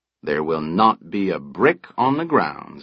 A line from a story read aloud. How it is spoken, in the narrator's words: Burnham said